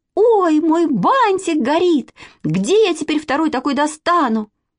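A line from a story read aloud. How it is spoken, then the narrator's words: Girl's alarmed scream. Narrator (Russian): А у одной девочки Зюзи Николаевой искра вскочила на бантик, и она как закричит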